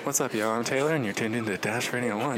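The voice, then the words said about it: NPR-style public radio voice. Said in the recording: “Do your NPR voice, not a radio voice ... Do an NPR voice. You know how everybody at NPR is like, hi. ... one NPR impression”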